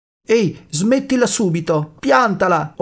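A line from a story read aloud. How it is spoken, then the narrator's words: Upset exclamation. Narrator (Italian): ho esclamato sconvolta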